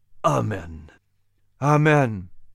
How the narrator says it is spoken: the family repeated solemnly

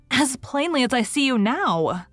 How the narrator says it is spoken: said little James, whose legs were giving way beneath her

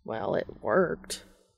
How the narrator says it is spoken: Castiel mutters

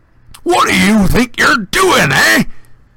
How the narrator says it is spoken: He roared, so suddenly

